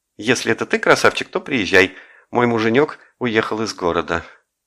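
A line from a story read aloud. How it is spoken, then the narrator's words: Cheerful. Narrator (Russian): весело сказала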